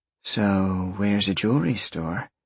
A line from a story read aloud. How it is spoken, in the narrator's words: Roxy purred happily